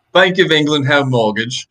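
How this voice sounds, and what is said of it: Put-on British accent. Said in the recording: “can you say the Bank of England Mortgage in your best British accent?”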